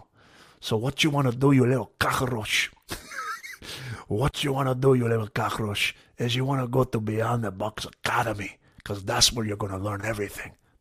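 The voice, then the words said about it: Scarface and Don Corleone impression. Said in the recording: “I started to add a little Puerto Rican accent in there. I'm going to do a cross between Scarface and Don Corleone.”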